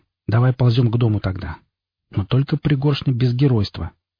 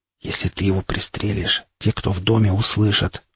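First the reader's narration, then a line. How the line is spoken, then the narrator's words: Barely audible whisper. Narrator (Russian): прошептал так тихо, что сам едва разобрал свои слова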